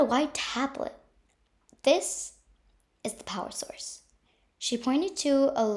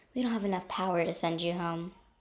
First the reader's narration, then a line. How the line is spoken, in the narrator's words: sighed Superhero Sinister